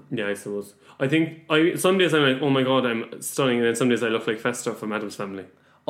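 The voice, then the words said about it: Irish accent. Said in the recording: “you have an Irish accent in London.”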